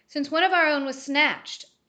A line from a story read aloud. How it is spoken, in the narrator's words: Ajax barked